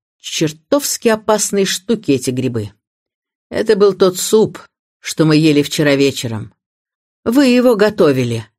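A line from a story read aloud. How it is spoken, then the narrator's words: Accusing tone. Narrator (Russian): обвиняющим тоном прибавил он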